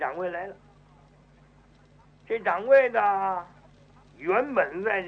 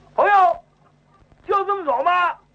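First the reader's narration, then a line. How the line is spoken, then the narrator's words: Shouting from behind. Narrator (Chinese): 后边有人嚷声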